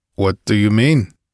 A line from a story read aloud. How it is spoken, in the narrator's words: he asked uneasily